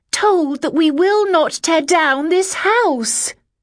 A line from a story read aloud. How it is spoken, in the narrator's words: I said, clearly, loudly